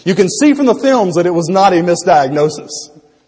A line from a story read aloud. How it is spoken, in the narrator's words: The hospital risk manager added firmly